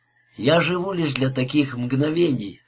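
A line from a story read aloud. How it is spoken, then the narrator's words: Whispered. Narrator (Russian): шептал он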